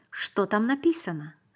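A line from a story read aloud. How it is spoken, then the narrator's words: Quick question. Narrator (Russian): быстро спросил я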